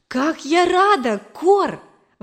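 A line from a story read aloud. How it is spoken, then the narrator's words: Joyful exclamation. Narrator (Russian): воскликнула я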